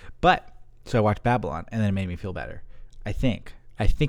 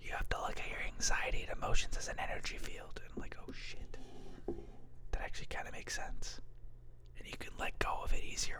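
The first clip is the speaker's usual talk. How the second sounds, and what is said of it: Whispering. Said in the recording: “Why am I whispering?”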